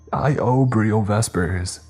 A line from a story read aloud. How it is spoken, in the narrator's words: yelled out, grunting in pain